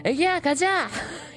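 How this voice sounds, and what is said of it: Forceful imitation of another person's voice. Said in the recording (Korean): “박신양의 성대모사 잘하시네요 ... 이렇게 박력 있게 좀 해주는 게 포인트입니다”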